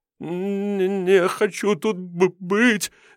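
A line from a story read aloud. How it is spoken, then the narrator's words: Stammering babble. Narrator (Russian): заикаясь, залепетал павлин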